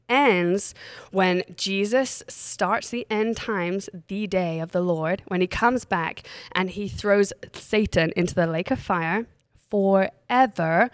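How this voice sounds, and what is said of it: Congested voice. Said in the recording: “as you can all hear, I have a cold”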